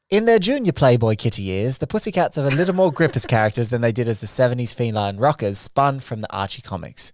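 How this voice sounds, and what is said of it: Put-on British accent. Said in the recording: “I'm doing a British accent just to pep it up a little bit.”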